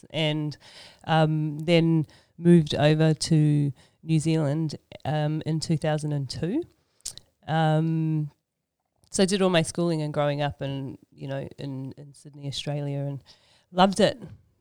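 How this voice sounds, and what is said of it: Slight Australian accent. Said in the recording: “you might sense a little bit of an Aussie accent... A little bit Australian”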